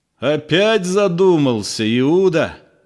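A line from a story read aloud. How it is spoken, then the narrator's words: Sudden clear shout. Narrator (Russian): кричал своим ясным голосом, внезапно разрывая глухое молчание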